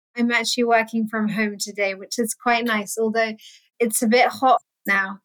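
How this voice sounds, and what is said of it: London English accent. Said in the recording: “accent, she is not in America ... I'm in London”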